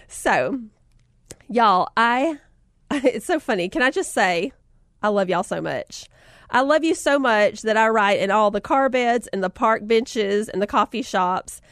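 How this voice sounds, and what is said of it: Southern American accent. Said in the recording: “she has a southern accent... She sounds just like me... do you plan to keep your accent?”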